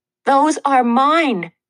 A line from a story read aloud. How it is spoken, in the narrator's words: I shouted, feeling like a 2-year-old whose toys were being snatched by a bully